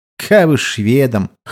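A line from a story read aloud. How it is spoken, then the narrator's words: Snort. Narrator (Russian): хмыкнул Овечкин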